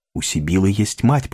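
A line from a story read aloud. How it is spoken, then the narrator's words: Whisper. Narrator (Russian): прошептала она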